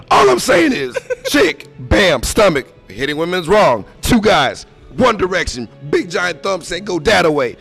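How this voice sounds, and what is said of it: Strained, hoarse, worked-up voice. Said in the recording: “I'm losing my voice, and it's okay, because I'm upset.”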